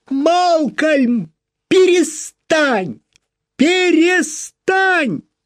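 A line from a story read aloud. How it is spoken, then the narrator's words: Screaming. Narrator (Russian): она закричала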